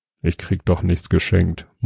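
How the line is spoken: Murmuring. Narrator (German): murmelte Jobst

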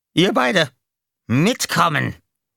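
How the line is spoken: Barked. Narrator (German): bellte

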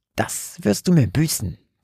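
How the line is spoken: Quiet hiss. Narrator (German): zischte Frederick leise zu Bernhard, sodass seine Mutter es nicht hören konnte

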